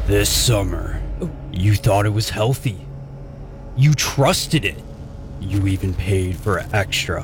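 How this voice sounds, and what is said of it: Slow big-voice movie trailer announcer. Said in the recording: “You just do it in your best slow delivery ... my big voice guy impersonation.”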